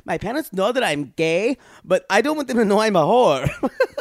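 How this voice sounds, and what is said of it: Put-on Latino accent. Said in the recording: “I'm going to do his voice because I think he's Latino.”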